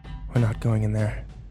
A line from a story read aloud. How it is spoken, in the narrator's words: I whispered